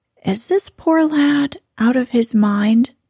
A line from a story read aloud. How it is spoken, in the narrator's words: she asked kindly